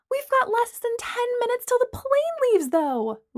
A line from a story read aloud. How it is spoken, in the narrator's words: Lana whined